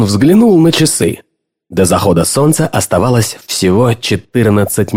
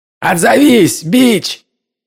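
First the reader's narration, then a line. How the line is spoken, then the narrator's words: Yelling. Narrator (Russian): орал Лох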